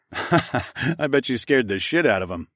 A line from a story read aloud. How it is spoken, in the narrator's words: I laughed